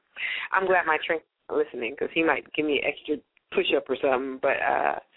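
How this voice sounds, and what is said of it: Slightly hoarse, drained voice. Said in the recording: “You sound a little drained ... my voice is just a little hoarse ... my throat is a little dry”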